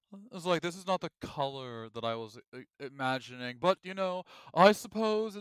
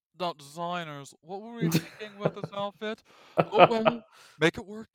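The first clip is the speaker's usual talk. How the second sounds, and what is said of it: Imitates another person's voice. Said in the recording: “my Project Runway impersonation”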